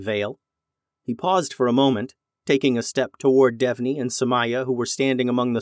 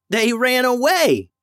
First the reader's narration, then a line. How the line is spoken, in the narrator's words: yelled Devney